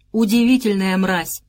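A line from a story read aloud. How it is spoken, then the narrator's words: Loud and clear. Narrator (Russian): громко и отчетливо сказал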